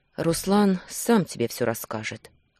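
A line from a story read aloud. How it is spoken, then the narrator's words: Tired sighing reply. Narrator (Russian): ответил со вздохом, устало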